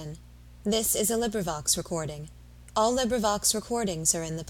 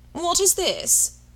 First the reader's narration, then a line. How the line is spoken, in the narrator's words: cried Sir Walter